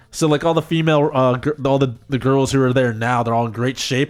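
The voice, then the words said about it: Speaks with a noticeable accent. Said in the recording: “my accent's coming through... it's an easy accent”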